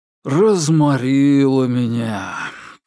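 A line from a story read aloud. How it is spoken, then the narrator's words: Languid voice. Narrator (Russian): томным голосом сообщил Фрэнк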